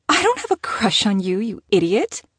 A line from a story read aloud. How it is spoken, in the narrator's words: she scoffed